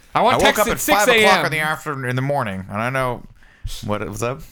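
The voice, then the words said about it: Imitates another person's voice. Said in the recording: “That's a good Greg impression.”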